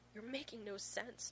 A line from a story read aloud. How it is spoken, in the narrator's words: John gasps